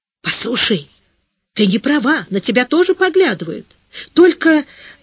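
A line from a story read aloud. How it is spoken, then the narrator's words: Whisper. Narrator (Russian): Зайка зашептала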